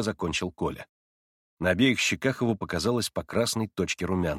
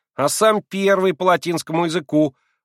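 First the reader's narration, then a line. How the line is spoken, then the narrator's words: Boy shouting. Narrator (Russian): Вдруг крикнул из толпы один мальчик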